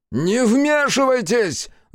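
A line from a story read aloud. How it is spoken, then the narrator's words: Angry shout. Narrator (Russian): зло прокричал Хитсу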